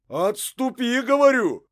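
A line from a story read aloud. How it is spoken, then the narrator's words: Archer, shouting. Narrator (Russian): уже кричал стрелец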